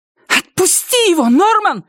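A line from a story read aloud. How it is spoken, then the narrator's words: Shouted. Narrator (Russian): закричала она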